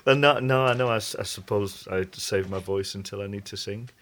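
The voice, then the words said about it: Soft, quiet speaking voice. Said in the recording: “You're very softly spoken. I was imagining a big hello”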